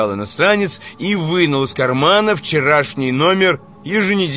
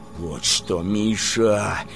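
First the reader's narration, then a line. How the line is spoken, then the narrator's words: Quiet. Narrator (Russian): заговорил поэт тихо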